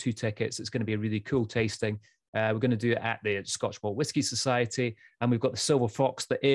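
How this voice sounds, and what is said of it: Usual voice. Nothing is said of it.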